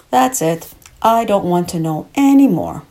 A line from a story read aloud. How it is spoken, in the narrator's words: said firmly